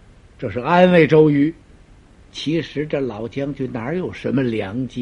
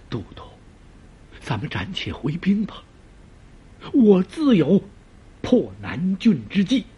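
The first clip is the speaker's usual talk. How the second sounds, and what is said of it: Quiet, hushed pleading. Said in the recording (Chinese): “小声解劝”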